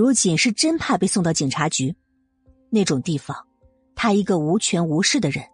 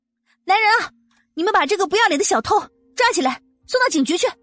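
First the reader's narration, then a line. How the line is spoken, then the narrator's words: Loud shout. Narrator (Chinese): 穆恩恩大声的喊道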